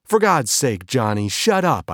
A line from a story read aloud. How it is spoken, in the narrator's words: I yelled